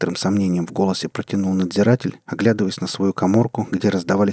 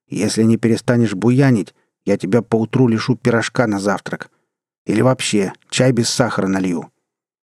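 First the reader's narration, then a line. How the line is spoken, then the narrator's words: Stern warden. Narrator (Russian): строго сказал надзиратель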